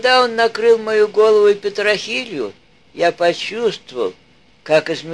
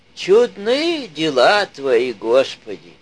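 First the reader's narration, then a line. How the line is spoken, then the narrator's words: Quiet whisper. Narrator (Russian): тихо шептал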